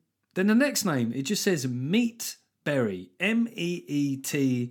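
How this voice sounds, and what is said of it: Usual voice. Nothing is said of it.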